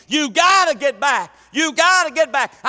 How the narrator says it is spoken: I'm hollering to the youth

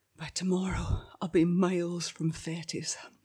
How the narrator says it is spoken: I whispered to myself

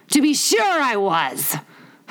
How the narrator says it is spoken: Humpty Dumpty said gaily

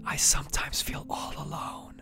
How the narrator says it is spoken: the little Christian whispered

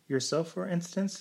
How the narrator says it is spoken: suggested the doctor slyly, and laughed at his hearty, genial fashion

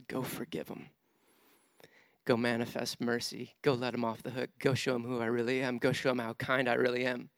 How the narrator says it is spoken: He breathed on him and said

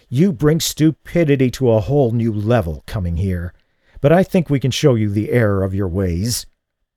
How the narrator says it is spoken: Van Horn snarled

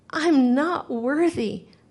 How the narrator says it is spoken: my heart cried

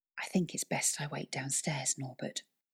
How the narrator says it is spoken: whispered Cat

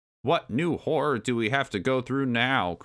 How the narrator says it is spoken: Cranky moaned

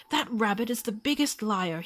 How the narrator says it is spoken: cried

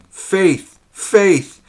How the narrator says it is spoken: shouted Goodman Brown in a voice of agony and desperation

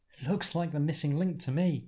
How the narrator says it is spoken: Martha laughs

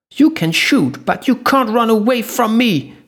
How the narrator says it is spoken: she screamed on top of lungs from the other side of the long corridor

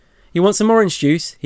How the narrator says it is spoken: he raised his voice so Maggie could hear

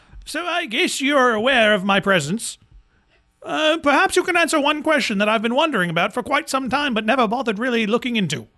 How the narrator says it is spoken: he yells

